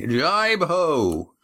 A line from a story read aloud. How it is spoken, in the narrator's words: shouted Adramin